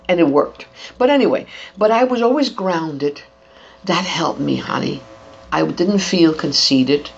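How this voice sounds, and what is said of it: Latina Bronx accent. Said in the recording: “In English, it's not perfect. You can tell I'm Latina. You can tell the Bronx accent sometimes.”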